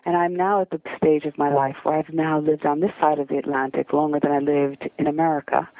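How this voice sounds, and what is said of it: American accent. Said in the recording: “my colleagues in England are always so impressed that I've managed to retain my American accent.”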